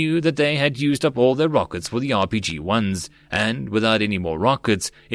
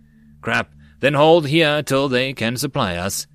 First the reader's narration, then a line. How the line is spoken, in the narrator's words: Tyria sighed